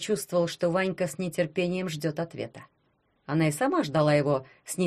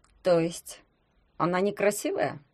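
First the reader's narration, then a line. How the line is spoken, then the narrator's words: Calm clarifying question. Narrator (Russian): спокойно уточнил Ванька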